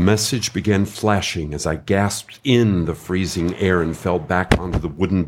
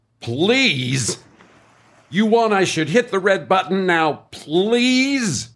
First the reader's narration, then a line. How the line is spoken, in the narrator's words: yelled